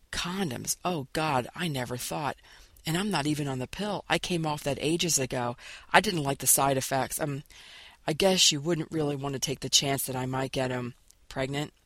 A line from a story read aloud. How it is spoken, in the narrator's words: He finished for her, his voice a whisper